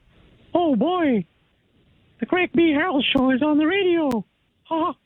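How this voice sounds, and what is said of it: Mickey Mouse cartoon voice. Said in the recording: “An impersonation ... Mickey Mouse.”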